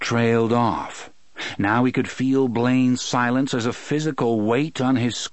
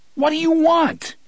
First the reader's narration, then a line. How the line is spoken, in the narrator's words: he shouted